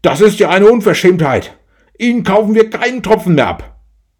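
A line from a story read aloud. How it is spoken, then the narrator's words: Boss bellowing after. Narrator (German): Der Chef brüllte hinterher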